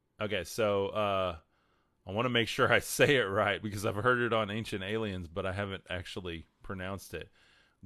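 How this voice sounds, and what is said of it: West Texas accent. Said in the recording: “that's hard with a West Texas accent.”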